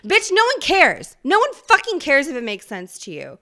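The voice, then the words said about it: Yelling, loud emotional rant. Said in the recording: “Sorry I'm yelling at you.”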